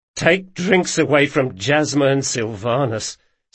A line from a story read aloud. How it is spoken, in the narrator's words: sighed Galdo